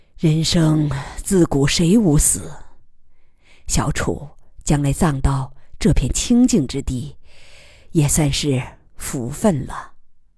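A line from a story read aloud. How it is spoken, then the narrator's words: Sighing. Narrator (Chinese): 叹息道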